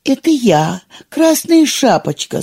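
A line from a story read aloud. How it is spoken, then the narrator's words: Wolf mimicking thin girl's voice. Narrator (Russian): сказал волк тоненьким голоском девочки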